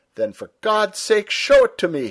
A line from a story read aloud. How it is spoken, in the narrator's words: he cried